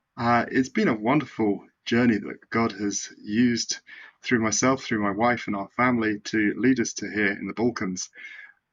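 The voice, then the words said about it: British accent. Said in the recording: “your accent is different than mine ... I'm from the United Kingdom”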